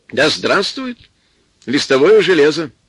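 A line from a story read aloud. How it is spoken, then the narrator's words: Cheerful, unembarrassed. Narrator (Russian): тоже весело сказал Солодовников, без всякого смущения, даже притворного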